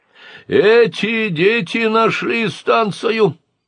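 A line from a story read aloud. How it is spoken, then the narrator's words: Shouting. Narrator (Russian): крикнул Катарсис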